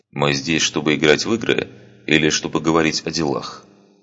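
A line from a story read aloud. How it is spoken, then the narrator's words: Calm, unruffled question. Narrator (Russian): спросил он невозмутимым тоном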